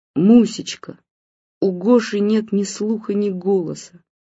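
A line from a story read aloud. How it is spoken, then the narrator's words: Sobbing. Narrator (Russian): сказал он и всхлипнул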